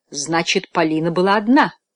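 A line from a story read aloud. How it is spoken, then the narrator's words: Exclaiming. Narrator (Russian): воскликнул Фламбо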